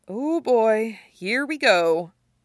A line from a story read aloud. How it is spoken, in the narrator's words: Isaac says with a sigh